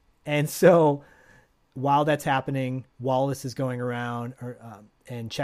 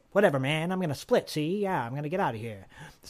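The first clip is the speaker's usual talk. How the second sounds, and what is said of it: Deliberately bad character voice impression. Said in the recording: “he doesn't talk like that, by the way, but it's just my bad impression.”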